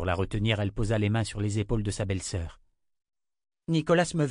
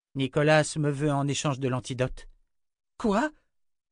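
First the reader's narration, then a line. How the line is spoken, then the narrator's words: Exclaiming. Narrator (French): s'exclama Jensen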